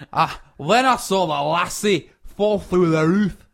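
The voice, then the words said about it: Put-on Scottish accent. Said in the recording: “This shows you that this is probably in Scotland... Was that quite a good accent?”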